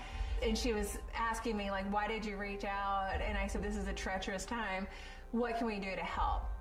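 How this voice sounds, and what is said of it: Rural country-sounding accent. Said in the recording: “I sound like I fell off a turnip truck”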